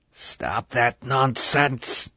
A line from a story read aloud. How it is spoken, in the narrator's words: the voice was a hiss